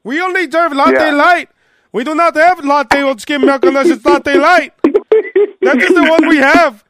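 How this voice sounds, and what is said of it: Imitated Indian accent. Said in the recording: “you went from an Indian accent to a more urban accent”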